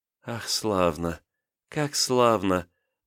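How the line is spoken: Whisper. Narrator (Russian): прошептала княгиня

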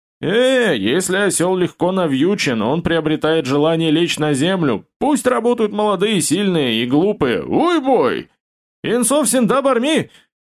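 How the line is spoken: Thunderous exasperated yell. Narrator (Russian): Бородач не выдержал, громоподобно заорал в ответ старшему брату

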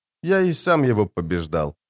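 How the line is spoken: Calm. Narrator (Russian): спокойно продолжил Стилгар

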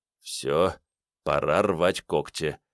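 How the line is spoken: Quiet. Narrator (Russian): тихо произнес Седой

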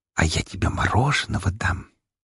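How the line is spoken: Conspiratorial whisper. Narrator (Russian): заговорщицки прошептала Мария

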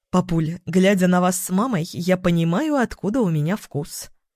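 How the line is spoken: Amused snort. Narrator (Russian): хмыкнула я

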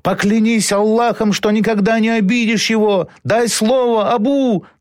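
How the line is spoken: Strained desperate shouting. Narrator (Russian): надрывно кричал Халид

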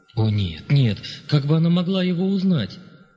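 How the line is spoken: Trembling exclamation. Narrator (Russian): воскликнул Лессинг дрогнувшим голосом

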